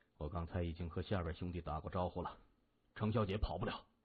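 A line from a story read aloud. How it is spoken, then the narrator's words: Low voice. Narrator (Chinese): 金眼低声说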